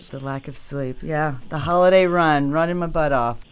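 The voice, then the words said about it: Tired, hoarse, fading voice. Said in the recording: “I'm tired, to be honest. I'm exhausted. So losing my voice.”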